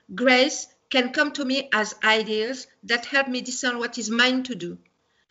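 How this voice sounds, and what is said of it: Speaks with an accent. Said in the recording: “Sorry for the accent. ... The accent is what made it.”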